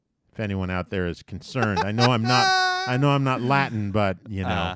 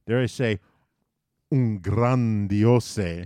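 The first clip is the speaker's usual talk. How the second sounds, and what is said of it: Put-on Spanish accent. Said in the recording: “I hope that wasn't too Spanish, that accent.”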